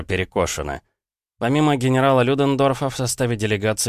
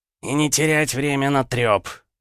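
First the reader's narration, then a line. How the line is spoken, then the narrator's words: Angry officer's addition. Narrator (Russian): зло добавил еще один немецкий офицер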